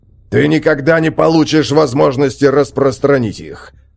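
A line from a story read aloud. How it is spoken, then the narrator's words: Sergeant growling. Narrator (Russian): зарычал сержант Хакон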